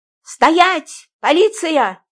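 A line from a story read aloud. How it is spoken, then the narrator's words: Excited shout. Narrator (Russian): азартно крикнула я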